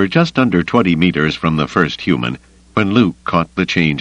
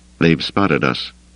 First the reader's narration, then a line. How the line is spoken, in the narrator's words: he murmured to Lando